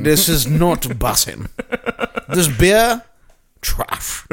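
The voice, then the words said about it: Put-on British accent. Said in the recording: “this evolved into a British accent”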